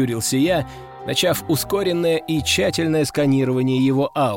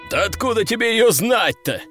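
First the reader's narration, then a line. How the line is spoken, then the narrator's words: Chuckling. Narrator (Russian): хохотнул Ржевский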